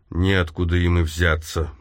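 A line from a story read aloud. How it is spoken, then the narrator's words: Grumbling mutter. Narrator (Russian): буркнул Вайснер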